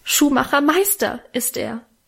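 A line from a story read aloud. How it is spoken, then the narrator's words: Tearful call. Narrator (German): rief Mähnchen mit Tränen in den Augen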